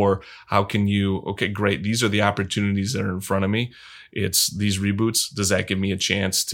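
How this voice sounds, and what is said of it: Usual voice. Nothing is said of it.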